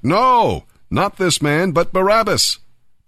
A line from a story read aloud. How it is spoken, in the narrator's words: they shouted back